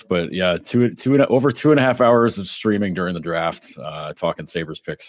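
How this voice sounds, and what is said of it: Raspy, hoarse voice. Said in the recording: “You might hear it in my voice tonight ... it might be a little bit more raspy ... a little bit more radio friendly”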